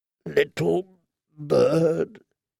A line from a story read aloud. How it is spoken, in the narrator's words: he said once more, his voice raw and harsh, as steel on stone